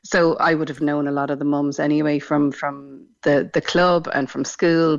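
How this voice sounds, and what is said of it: Irish Dublin accent. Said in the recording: “As you may have guessed from my accent, not from Cork originally... we moved down from Dublin”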